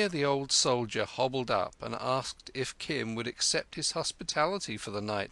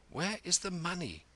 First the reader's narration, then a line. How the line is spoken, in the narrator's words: whispered